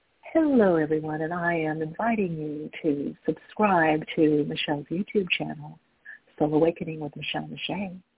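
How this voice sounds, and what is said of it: Announcer-style broadcaster voice. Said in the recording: “Let me get in my broadcaster voice.”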